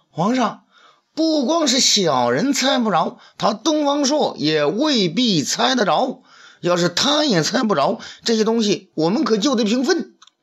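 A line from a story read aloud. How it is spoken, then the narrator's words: Shouting. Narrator (Chinese): 他叫道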